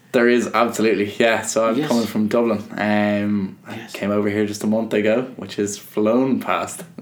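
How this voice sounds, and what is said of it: Irish accent. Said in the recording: “do you hear just a bit of an accent? ... There's something to it ... There's an Irish accent there ... We can hear the accent come through and through. I thought it was a little Canadian there”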